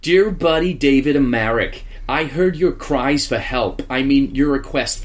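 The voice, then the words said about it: Put-on American New York accent. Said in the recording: “what accent do you want Anne Coletta in? ... It's New York. It's all New York-ish, Albany way. ... So it'll be American.”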